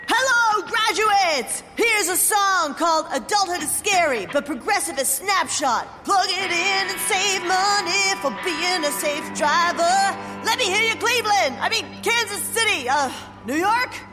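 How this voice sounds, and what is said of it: Rock band frontman voice. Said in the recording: “my impression of a geographically challenged rock band delivering a commencement speech”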